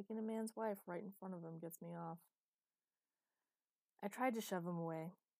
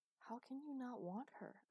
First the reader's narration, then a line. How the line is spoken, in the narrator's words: I'd gasped